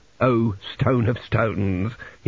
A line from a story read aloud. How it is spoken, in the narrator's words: he croaked